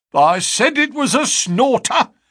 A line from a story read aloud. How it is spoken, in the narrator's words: he cried